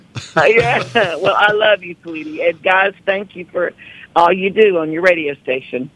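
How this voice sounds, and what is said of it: Tennessee Southern accent. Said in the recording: “she's still got the accent ... from Tennessee”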